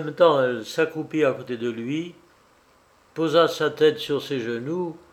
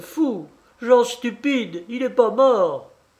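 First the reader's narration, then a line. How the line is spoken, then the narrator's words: Woman exclaiming. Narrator (French): s'écria-t-elle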